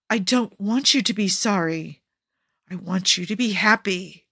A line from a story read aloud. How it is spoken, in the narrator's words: Jafar growls